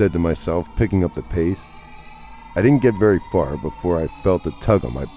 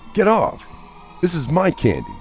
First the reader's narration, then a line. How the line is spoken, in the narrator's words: cried